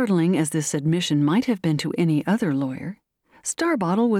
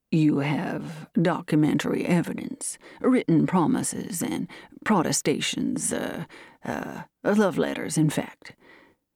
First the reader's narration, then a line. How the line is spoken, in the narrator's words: he said gloomily